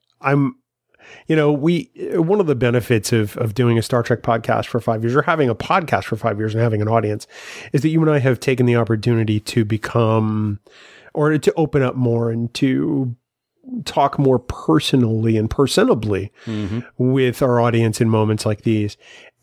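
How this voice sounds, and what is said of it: Weary, tired-sounding voice. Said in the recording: “people can probably hear it in my voice. I'm weary. ... You look tired. ... I am tired.”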